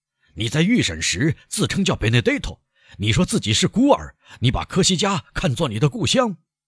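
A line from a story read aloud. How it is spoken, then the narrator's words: Loud, angry. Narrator (Chinese): 被激怒的庭长大声地说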